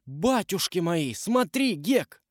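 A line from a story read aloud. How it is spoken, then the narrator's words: Exclaimed. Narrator (Russian): Том воскликнул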